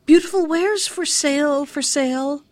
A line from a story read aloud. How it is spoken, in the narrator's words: she called out